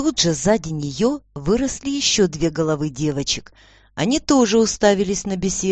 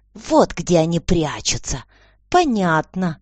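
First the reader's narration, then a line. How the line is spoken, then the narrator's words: Quiet hiss. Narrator (Russian): тихо прошипела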